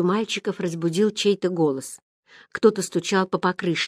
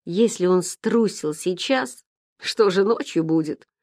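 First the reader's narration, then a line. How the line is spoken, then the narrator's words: Mocking remark. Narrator (Russian): насмешливо заметил дятел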